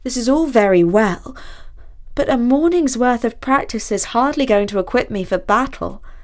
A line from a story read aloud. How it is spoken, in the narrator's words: said Basil mournfully